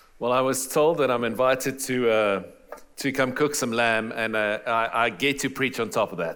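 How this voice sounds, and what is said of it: Noticeable foreign accent. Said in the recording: “If you're having trouble with my accent, I do apologize. I can't do anything about it”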